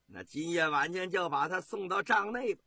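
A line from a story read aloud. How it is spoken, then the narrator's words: Leering laugh. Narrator (Chinese): 侯景啊立马他淫笑着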